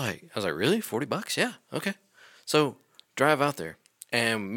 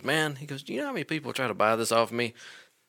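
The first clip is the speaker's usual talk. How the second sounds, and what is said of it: Put-on Southern US accent. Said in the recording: “I don't know why I gave him a southern accent”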